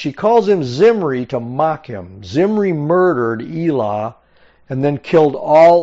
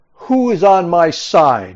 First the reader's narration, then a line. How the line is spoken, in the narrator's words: Jehu shouted